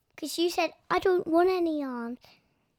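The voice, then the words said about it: Child imitating her father's voice. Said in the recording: “Good impression of me, by the way.”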